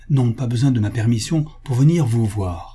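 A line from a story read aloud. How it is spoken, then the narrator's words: Curt young woman. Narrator (French): dit sèchement la jeune fille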